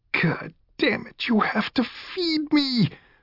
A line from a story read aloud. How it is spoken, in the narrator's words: Puppet Man wailed